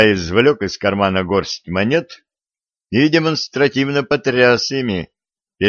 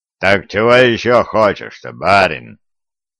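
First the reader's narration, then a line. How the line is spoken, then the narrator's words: Pleased booming rumble. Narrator (Russian): прогудел довольный произведенным эффектом левша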